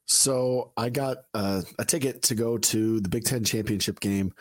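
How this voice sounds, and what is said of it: Hoarse, slightly short-winded voice. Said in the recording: “why you're so hoarse. I've noticed it. You may be even short winded this week, but why are you so hoarse?”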